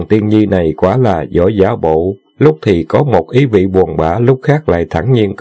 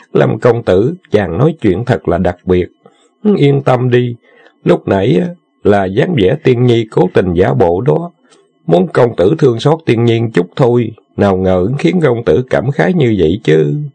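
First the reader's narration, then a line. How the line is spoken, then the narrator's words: Giggling. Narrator (Vietnamese): Tần Tiên Nhi cười khúc khích một tiếng rồi nói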